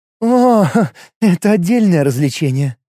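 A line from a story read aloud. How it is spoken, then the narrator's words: Laughing. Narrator (Russian): Лига засмеялась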